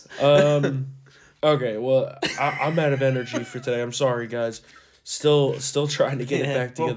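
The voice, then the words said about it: Hoarse, worn-out voice. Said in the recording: “My voice is just it's shot. It was shot last week. I got it back, and then it was shot after the Eagles game.”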